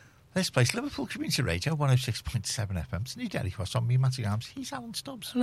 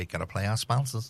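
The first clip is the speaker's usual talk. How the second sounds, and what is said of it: Bad put-on American accent. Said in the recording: “as the Americans say ... That's the worst American accent ever.”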